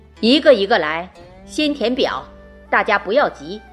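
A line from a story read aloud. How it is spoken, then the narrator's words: Smug, loud. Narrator (Chinese): 中年人得意洋洋，大声地说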